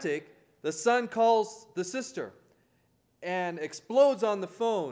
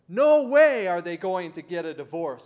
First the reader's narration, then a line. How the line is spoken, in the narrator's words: shouts